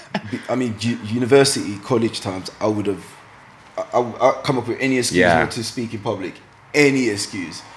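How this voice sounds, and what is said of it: East London accent. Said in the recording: “my accent sounded weird. Being in East London, I just didn't think I sounded proper enough”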